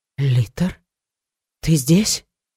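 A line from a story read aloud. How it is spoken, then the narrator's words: Frightened question. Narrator (Russian): спросила испуганно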